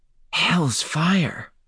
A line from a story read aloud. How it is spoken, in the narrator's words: she gasped